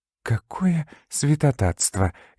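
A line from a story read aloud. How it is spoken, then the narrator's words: Furious whisper to herself. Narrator (Russian): яростно прошептала про себя мисс Карнаби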